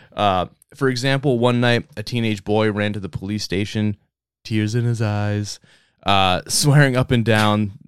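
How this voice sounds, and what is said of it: Bad Donald Trump impression. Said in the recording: “my Trump impression. It's really bad.”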